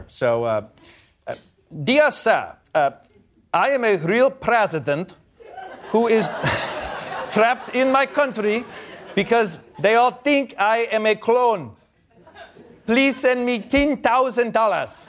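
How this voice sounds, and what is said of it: Put-on Nigerian accent. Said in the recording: “I'm supposed to do a Nigerian accent here. ... That's pretty good.”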